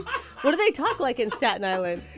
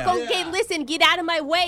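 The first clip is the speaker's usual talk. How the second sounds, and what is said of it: Attempted Staten Island New York accent. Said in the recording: “the famous Staten Island accent ... It's like Long Island ... it's New York ... that's Irish”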